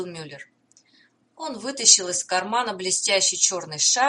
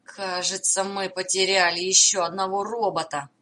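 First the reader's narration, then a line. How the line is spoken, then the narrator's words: Groaning. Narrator (Russian): простонал Роулинг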